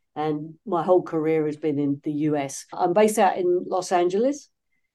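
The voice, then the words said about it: British English accent. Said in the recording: “You can probably tell from my accent, I'm not originally from these parts, originally from the UK”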